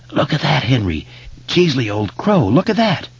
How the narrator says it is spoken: Belch was hissing

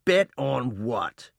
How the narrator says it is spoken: Reuben spat again

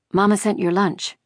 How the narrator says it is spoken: she said, her voice quavering

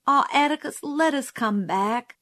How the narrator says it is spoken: pleaded Jim

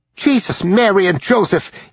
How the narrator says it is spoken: yelped Rudy

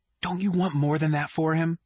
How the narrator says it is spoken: shout whisper from downstairs

